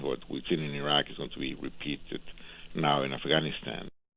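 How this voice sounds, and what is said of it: Spanish accent. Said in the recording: “this guy with the Spanish accent”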